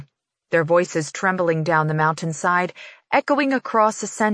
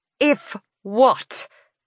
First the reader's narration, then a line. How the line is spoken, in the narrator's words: She snaps again, yelling over the alarm